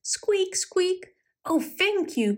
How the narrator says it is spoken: cried the little pig

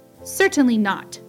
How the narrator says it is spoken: snapped Jenny

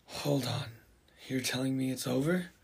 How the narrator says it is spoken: Jean, with a sigh of relief, wonders

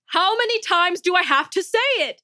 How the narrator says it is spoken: Nejma bellowed

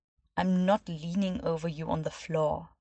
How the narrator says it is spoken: said in a cold voice

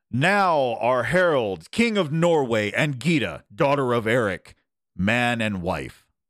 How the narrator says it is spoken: Eric called out loudly

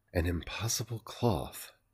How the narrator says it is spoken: breathed

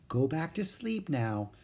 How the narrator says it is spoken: said softly

